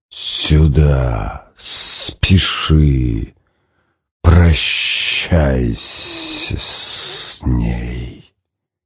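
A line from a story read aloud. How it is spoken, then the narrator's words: Hissing inner voice. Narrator (Russian): зубастая волна прошипела в глубине стиснутого болью сознания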